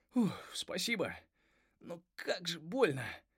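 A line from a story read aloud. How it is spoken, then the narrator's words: Groan. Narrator (Russian): простонал Карак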